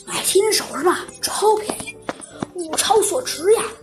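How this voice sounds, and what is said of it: Quiet, hushed asking voice. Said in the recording (Chinese): “小声问”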